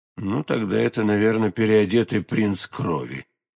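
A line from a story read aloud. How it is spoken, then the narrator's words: Cold remark, stranger. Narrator (Russian): холодно заметил незнакомец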